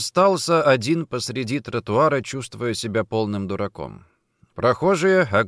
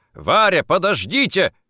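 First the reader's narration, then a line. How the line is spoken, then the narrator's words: Shout. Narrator (Russian): крикнул Никитин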